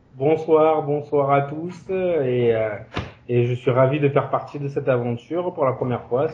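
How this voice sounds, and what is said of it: Southern French Toulon accent. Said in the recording (French): “toi t'as un accent donc Toulon”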